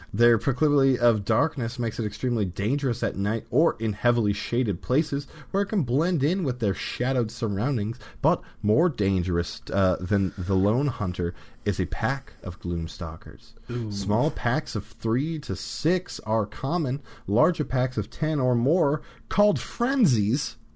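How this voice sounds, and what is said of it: Dramatic movie trailer narrator voice. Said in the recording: “Can you give me that in a movie trailer voice?”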